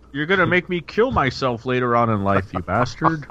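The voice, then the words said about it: Imitates another person's voice. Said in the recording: “Is that a Jonathan Brandis impression?”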